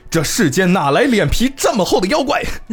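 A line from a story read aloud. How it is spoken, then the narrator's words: Loud, booming, angry. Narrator (Chinese): 将军生气了，声音比较大，声如洪钟啊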